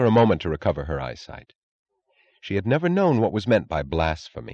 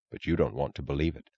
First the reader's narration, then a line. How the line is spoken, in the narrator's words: he answered gravely